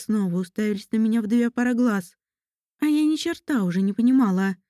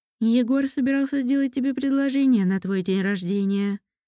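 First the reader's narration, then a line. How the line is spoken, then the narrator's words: Plain. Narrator (Russian): сказала Лера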